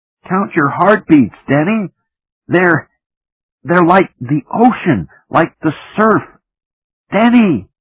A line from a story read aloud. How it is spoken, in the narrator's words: shouted